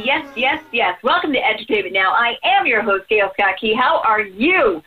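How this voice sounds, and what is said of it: Excited, energetic voice. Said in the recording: “hear the excitement in my voice”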